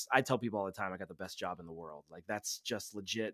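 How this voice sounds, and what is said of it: Polished podcast host voice. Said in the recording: “you can obviously tell ... has a podcast voice. He's got the voice down.”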